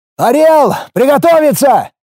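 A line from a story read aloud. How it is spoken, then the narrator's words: Painfully loud distant shout. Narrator (Russian): Издали крикнул так, что даже в ушах чуть стрельнуло от боли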